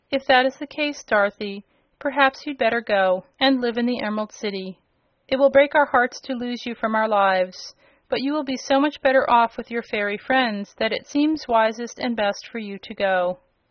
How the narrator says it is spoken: Aunt Em said, with another sigh of regret

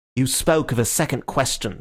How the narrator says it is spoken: snapped Gregory

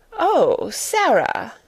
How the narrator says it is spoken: she exclaimed, endeavoring to produce a suitable smile

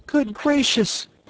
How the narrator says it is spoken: cried Dorothy

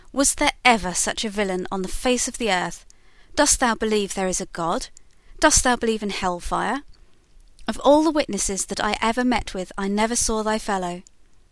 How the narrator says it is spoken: exclaimed the judge with an oath

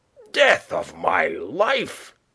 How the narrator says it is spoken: he cried

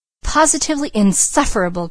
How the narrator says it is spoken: cried Mrs

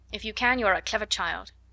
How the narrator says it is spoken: answered, drawing in her mouth sharply

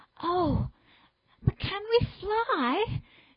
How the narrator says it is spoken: Jane said, standing anxiously

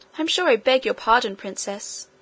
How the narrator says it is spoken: she said, though still in an offended tone

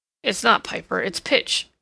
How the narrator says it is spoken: Edward grunted

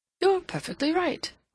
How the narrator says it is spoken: Rodney exclaimed

